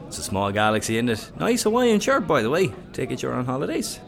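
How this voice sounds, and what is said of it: Irish accent from Waterford. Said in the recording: “What accent is that? East? Southeast? ... Waterford.”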